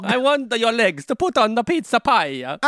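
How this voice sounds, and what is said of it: Exaggerated mock Italian accent. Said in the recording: “That wasn't a French accent ... That was Italian is what that was”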